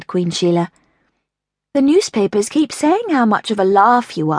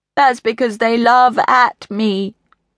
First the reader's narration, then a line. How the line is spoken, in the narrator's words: moaned King Steve